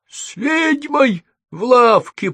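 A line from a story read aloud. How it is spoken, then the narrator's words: Whining. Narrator (Russian): проскулил он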